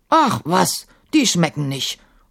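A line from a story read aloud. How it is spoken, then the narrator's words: Grunt. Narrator (German): grunzte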